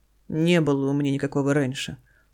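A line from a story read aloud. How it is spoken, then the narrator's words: Weary indignation. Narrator (Russian): устало возмущается Данила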